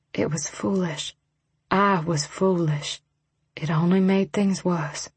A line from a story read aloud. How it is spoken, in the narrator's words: I swallowed and whispered